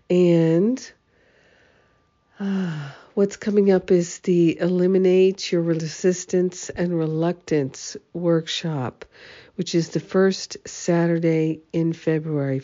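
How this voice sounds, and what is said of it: Slightly congested voice with a cold. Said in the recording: “As you can hear, I have a little bit of a cold, so I'm resting my voice.”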